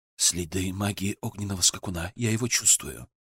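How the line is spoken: Quiet. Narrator (Russian): Тунелонец тихо сказал

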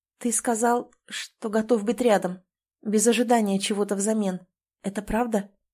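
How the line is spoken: Hoarse. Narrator (Russian): Голос звучит хрипло

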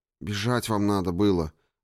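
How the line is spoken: Sighed. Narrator (Russian): вздохнула другая девушка

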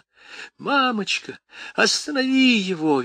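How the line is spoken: Shrieking girl. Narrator (Russian): визжала девочка

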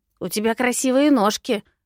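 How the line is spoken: Parting shout. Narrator (Russian): крикнул напоследок синеглазый извращенец

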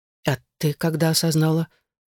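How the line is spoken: Timid question. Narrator (Russian): Вопрос прозвучал довольно робко

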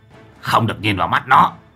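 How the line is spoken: Sharp shout. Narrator (Vietnamese): Lão Hậu quát lên

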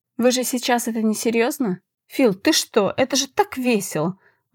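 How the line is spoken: Exclamation. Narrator (Russian): воскликнул Эштон

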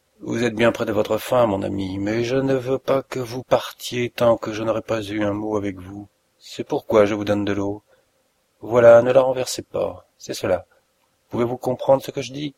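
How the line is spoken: Grunted. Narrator (French): Holmes grogna

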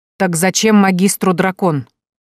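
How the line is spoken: Businesslike clarifying question. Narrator (Russian): прервав ворчание, деловито уточнила

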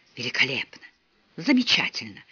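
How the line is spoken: Whispered. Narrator (Russian): шептал он

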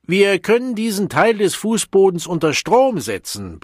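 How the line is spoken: Bellowed explanation. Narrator (German): brüllte der Direktor erklärend

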